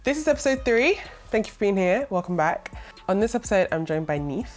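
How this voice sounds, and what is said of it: Congested, nasal sick voice. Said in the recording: “I'm so ill right now ... my voice will come back and I wouldn't be sounding so nasally ... the sound of my voice”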